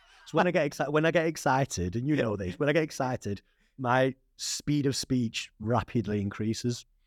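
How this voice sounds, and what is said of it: Strong accent. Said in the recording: “you got a strong accent, but you also use slang from where you're from”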